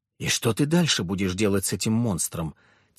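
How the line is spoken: Quiet but not hidden. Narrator (Russian): тихо проговорила, но не стараясь скрыться

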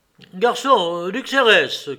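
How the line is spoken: Shouted. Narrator (French): cria Vronsky

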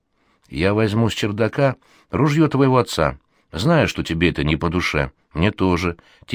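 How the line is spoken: Quiet confession. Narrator (Russian): тихо признается он

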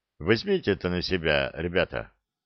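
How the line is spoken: Quiet speech. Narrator (Russian): негромко сказал

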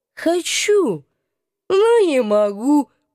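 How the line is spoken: Moaning. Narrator (Russian): простонал он

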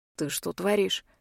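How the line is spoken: Barely audible hiss. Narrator (Russian): Еле слышно шипит Маркус

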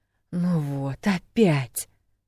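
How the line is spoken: Inward groan. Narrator (Russian): мысленно застонала

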